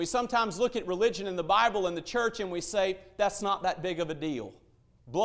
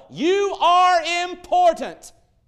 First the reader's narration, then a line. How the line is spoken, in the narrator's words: screamed to the world